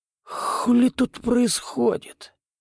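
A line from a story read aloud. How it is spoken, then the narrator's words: Wheezy rasp, fish. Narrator (Russian): просипел карась, открывая глаза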